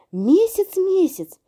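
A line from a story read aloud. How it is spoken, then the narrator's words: Animal chorus shouting. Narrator (Russian): закричали ему цыплята, сорока, заяц, утка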